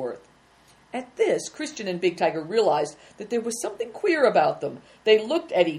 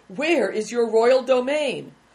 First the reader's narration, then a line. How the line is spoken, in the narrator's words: cried another